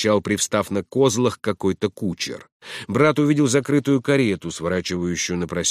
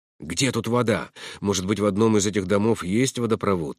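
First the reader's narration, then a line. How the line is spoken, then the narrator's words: Plain. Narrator (Russian): сказал брат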